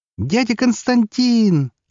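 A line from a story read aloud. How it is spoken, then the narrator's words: Joyful child's squeal. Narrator (Russian): радостно взвизгнул мелкий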